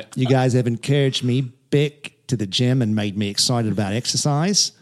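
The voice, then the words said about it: Put-on Australian accent. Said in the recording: “I was going to read it with an Australian accent”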